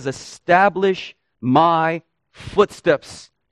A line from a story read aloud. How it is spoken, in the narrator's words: says